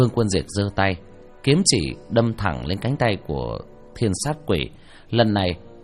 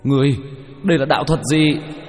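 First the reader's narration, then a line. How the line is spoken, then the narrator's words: Angry pained shout. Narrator (Vietnamese): Hắn kêu thảm một tiếng, bay văng ra ngoài 2 mét, giận dữ hét lên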